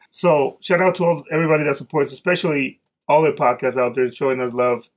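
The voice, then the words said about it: Speaks with a noticeable accent. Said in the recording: “Talk a little slower ... my accent gets in the way sometimes”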